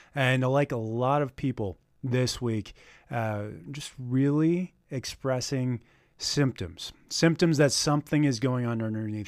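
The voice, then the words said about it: Slightly hoarse, raspy voice. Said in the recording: “a little bit of hoarseness, a little raspiness in my voice”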